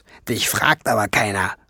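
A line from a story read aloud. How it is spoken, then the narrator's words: Hissed. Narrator (German): fauchte sie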